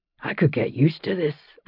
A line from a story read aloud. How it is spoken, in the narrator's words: Roger said, yawning